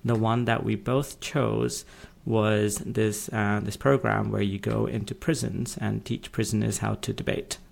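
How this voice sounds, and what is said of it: British accent. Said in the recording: “if you can detect it from our accents, are from the UK”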